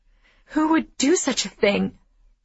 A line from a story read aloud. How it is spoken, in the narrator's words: I gasp